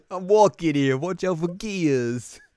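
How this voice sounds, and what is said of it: Put-on Brooklyn accent. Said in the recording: “Brooklyn accent”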